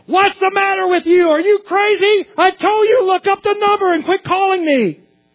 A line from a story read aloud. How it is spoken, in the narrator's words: the man literally screamed into the phone